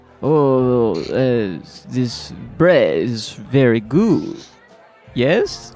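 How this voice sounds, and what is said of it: Put-on French accent. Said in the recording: “if you did a French accent ... I don't really do accents, but okay ... That's inappropriate”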